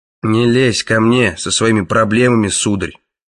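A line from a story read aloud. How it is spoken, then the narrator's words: Grumbling. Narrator (Russian): пробурчал Краннан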